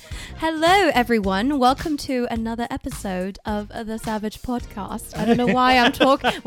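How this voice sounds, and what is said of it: Poor put-on British accent. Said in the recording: “that was a really bad British accent”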